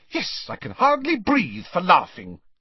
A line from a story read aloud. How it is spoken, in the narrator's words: snapped Hermione